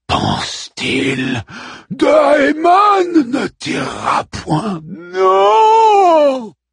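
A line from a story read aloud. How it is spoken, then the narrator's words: Moaning. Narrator (French): gémit Caliban parmi les ombres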